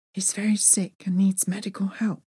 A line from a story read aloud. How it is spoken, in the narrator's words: I whispered